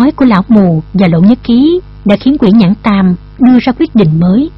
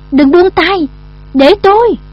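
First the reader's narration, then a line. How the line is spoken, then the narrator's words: Shout. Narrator (Vietnamese): Lộ Nhất Khí cũng hét lên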